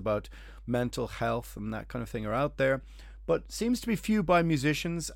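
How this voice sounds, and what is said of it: Irish accent. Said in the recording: “my stupid accents ... just like the Irish accent ... I sound like Dylan Moran”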